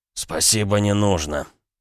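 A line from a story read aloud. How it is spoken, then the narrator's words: Hoarse wheeze while rinsing. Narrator (Russian): Наконец просипел он, полоща рот простой водой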